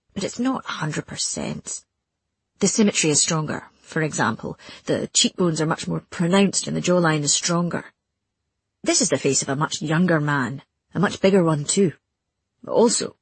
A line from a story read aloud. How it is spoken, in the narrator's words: he grunted again, and I realized he was amused